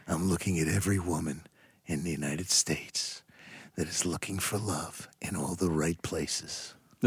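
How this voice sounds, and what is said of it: Put-on sexy voice. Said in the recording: “Give him a sexy voice.”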